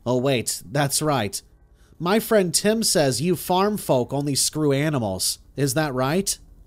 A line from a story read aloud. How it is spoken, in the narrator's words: laughed out loud